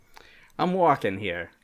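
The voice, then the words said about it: Exaggerated Brooklyn accent. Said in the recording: “It's offensive Brooklyn”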